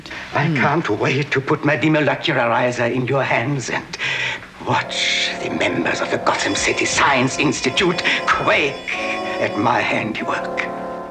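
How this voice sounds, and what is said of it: Heavy German accent. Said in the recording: “the German accent ... pretty heavy-handed.”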